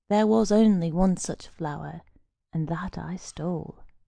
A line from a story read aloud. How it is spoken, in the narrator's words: answered gloomily